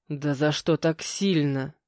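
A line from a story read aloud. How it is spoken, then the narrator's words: Hissing behind a door. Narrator (Russian): прошипел Витя за дверью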